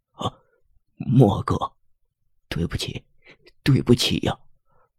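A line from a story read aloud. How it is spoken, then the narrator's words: Trembling voice. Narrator (Chinese): 段子明的情绪才缓和下来，声音仍在颤抖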